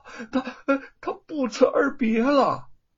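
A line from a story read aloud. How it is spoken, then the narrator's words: Breathless. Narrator (Chinese): 叶云喘了口气说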